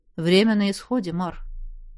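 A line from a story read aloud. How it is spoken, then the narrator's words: Quiet, dropped remark. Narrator (Russian): тихо уронил Цезар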